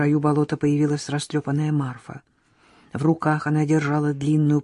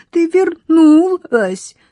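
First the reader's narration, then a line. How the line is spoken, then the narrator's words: Sobbing. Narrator (Russian): всхлипнула Лёлька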